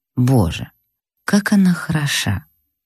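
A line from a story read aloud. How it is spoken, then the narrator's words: Lustful whisper. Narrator (Russian): прошептал сладострастным шепотом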